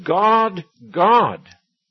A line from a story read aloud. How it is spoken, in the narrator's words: her little girl yelling and saying